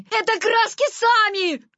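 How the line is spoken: Desperate shout. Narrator (Russian): крикнул он в отчаянии

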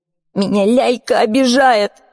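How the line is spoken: Sobbing. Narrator (Russian): ответил Саша, всхлипывая

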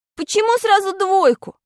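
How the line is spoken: Almost shouting. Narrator (Russian): чуть не закричал я

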